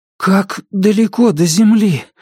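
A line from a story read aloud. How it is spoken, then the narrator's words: Breathless exhale. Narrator (Russian): выдохнул Дайн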